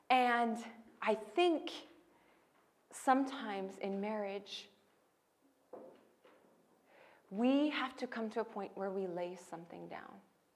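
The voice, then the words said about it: American accent. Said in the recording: “There was nothing about me except my accent that was American.”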